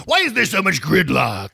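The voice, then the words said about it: Comedic character voice. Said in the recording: “doing my Jiminy Glick voice again”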